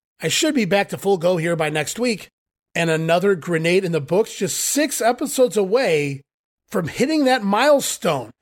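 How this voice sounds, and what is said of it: Nasal, congested voice. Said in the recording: “my voice is a little nasal sounding here this week. Blame it on the allergies.”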